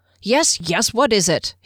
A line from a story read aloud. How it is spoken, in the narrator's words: he snapped